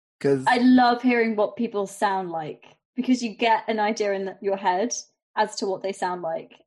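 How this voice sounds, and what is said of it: Posh English RP accent. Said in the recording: “you have a British accent ... Quintessentially English accent, very RP, very Queen's English, very posh”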